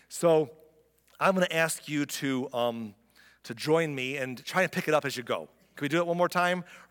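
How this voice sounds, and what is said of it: Hoarse, strained voice. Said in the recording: “My voice is shot.”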